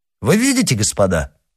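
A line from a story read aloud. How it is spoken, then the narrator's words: Triumphant exclamation. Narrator (Russian): воскликнул принц с торжествующим видом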